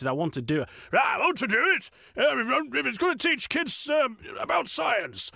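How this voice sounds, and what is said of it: Imitates another person's voice. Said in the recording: “my Brian Blessed impression”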